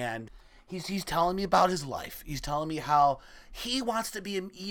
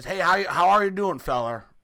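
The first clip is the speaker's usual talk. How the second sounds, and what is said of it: Put-on Southern accent. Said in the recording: “he had a southern accent.”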